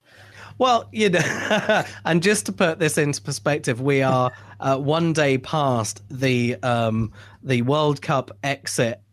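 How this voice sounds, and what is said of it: English accent. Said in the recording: “this accent ... if you've got an English accent, it means more”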